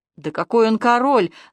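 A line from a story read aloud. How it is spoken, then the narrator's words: Annoyed mutter. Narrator (Russian): досадливо буркнул Иващенко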